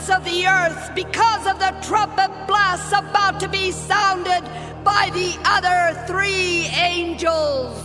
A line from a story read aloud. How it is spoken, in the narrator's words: heard an eagle that was flying in midair call out in a loud voice